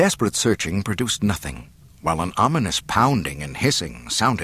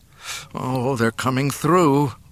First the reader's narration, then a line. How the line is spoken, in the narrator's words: Luke groaned